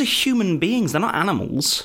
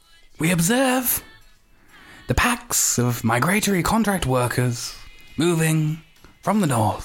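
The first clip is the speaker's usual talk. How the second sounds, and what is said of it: Nature documentary narrator voice. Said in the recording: “David Attenborough's free? ... do the natured voice.”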